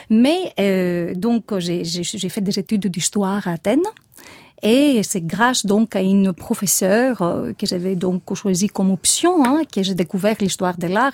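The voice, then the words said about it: Gravelly Greek accent in French. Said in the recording (French): “je suis grecque, comme tout le monde peut le comprendre d'après mon accent rocailleux”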